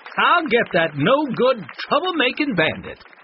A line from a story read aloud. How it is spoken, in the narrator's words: Wanda yelled